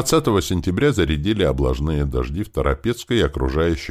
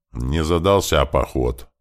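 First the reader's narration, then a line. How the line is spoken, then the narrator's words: Grumbling nobles. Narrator (Russian): ворчала шляхта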